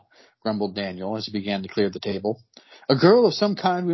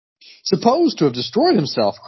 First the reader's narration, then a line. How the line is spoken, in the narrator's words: cried Skegg